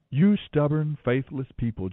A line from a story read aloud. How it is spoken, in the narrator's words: Jesus said